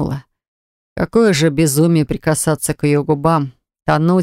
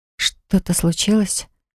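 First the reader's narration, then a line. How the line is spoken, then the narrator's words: Soft whisper. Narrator (Russian): прошептала девушка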